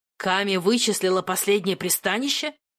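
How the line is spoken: Yelling. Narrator (Russian): завопил Доминик

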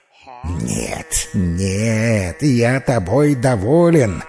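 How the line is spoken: Hissing through teeth. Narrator (Russian): сквозь зубы прошипел Муса

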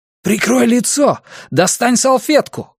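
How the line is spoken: Shouted. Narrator (Russian): крикнул

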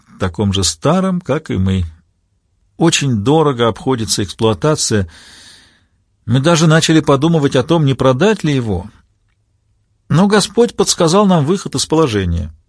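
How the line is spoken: Breathless, sad wry chuckle. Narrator (Russian): Аббатиса снова остановилась, чтобы отдышаться, потом добавила, печально усмехнувшись

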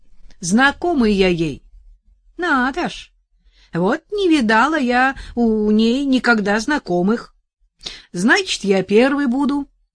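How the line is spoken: Cheerful reply. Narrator (Russian): весело ответил Арсений

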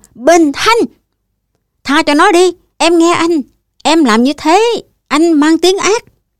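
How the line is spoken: Very loud shout. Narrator (Vietnamese): Tôi miệng quát thật to

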